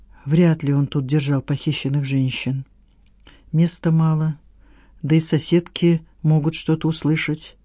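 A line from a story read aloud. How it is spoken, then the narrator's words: In an undertone. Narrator (Russian): Саттаров вполголоса сказал Надежде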